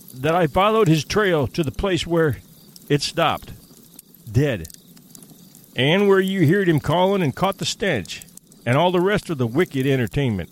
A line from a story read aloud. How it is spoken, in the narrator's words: cried Hank, with a volubility that betrayed his keen distress